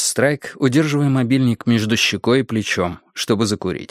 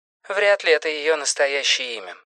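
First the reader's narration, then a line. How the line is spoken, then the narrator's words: Dry. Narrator (Russian): сухо сказал Робин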